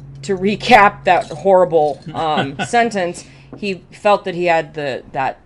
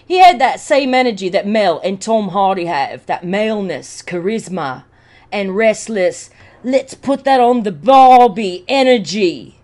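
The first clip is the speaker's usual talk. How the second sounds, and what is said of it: Put-on accent, not done well. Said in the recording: “That's not one of my best accents.”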